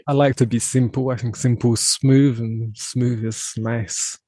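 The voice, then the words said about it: British accent, somewhat less posh. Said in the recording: “Maybe it's the accent as well. I don't think my accent's quite as posh as his.”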